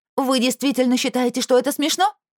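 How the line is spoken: Barking. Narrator (Russian): рявкнула я

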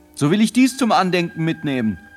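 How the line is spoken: Called out. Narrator (German): rief Peter

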